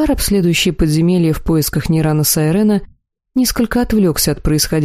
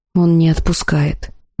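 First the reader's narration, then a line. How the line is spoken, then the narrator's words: Nervous whisper. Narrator (Russian): нервно прошептал Тахир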